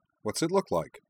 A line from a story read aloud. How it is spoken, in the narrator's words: Nall replied